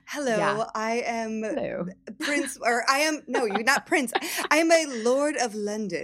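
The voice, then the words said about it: Put-on English accent, lame. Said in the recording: “I'm doing my like lame English accent.”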